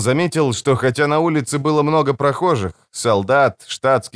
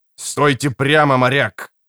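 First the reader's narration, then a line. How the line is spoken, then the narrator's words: Policeman barking. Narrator (Russian): рявкнул полицейский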